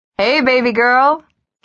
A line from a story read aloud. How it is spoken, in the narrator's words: Carrie called out